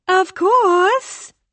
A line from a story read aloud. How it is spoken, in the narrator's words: the girl said brightly